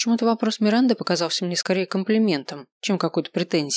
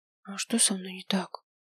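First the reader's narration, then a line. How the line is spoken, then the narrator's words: Quiet, sheepish smile. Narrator (Russian): тихо спросил я, глупо улыбнувшись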